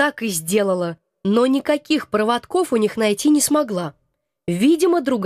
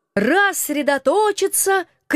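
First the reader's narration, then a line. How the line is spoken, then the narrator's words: Shouted. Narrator (Russian): крикнул мой муж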